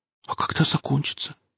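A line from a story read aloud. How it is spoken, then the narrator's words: Whispered. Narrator (Russian): спросил он шепотом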